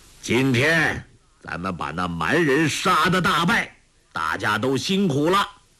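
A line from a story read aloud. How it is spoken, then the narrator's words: Loud. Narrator (Chinese): 铁木真大声说道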